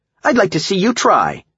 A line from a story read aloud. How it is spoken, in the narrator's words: Cindy shouted back